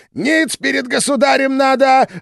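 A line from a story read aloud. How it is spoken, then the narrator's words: Yell. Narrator (Russian): завопил он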